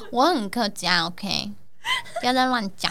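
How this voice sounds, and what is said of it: Put-on Hakka accent. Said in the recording (Chinese): “为什么你要讲这些客家人说用这口音？你这很奇怪。”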